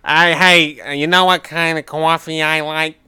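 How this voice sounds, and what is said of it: High-pitched New York-style imitation. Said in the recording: “That's my Kevin impression. ... that's my coffee stop Kevin impression. ... That's exactly what he sounds like. ... He's got a high-pitched voice, and he's from New York.”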